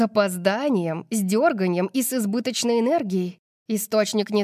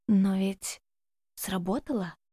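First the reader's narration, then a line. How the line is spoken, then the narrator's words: Whisper. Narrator (Russian): Шепнула Альба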